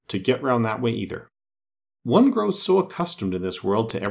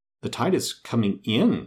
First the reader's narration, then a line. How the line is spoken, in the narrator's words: faltered